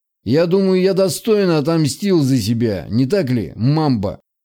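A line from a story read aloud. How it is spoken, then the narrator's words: Smug snort. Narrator (Russian): хмыкнул Аль-Максум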